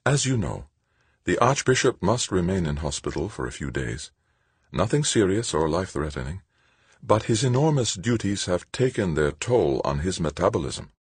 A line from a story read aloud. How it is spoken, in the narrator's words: As sweetly as she could, Angelique told them